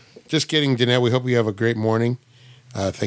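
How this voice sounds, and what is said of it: Usual voice. Nothing is said of it.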